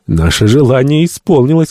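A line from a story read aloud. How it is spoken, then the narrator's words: Exclaiming, man. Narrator (Russian): воскликнул доктор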